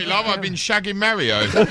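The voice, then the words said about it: Exaggerated fake British accent. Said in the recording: “the British guy doing a fake British accent.”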